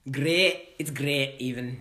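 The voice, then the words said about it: Bad put-on Scottish accent. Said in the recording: “Scottish? ... It's a really bad accent. I think I have a good great. And then it just falls apart after.”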